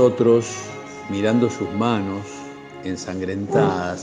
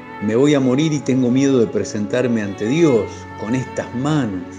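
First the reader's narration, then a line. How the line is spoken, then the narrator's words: Shouting. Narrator (Spanish): la muchacha grita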